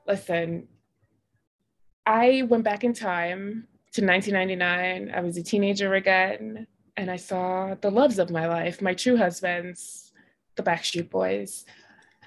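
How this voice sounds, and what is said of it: Strained voice cutting in and out. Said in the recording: “My voice is in and out. Sorry. ... tell us what happened to your voice.”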